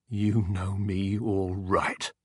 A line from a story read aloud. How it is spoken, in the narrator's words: snarled, his whole body writhing as if a current were passing through it